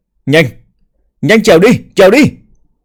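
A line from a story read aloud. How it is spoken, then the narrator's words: Terrified frantic scream. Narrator (Vietnamese): Bàng Đằng nhận được tin tức lập tức kinh hãi đến biến sắc, gào lên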